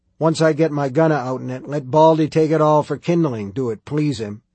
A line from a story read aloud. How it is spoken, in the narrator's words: Kells grunted